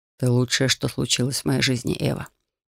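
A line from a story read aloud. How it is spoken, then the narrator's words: Tender whisper. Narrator (Russian): прошептал Рион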